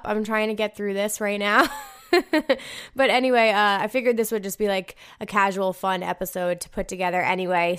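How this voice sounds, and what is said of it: Tired, low-energy raspy voice. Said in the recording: “I am very hungover ... my energy seems a little bit low ... I'm super tired. I have like party girl voice too, which you guys can all hear at this point.”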